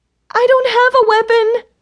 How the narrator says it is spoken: I screeched

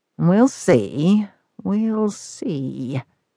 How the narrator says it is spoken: he murmured

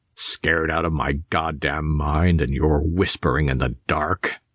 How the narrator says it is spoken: he growled

